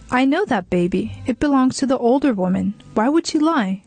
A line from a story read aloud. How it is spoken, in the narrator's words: exclaimed